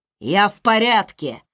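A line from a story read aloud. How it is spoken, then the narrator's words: Growled. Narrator (Russian): прорычал Райф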